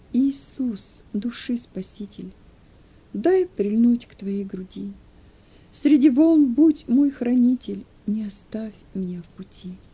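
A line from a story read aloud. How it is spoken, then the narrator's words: Mournful barely-voiced singing. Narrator (Russian): Едва шевеля губами, он скорбным голосом запел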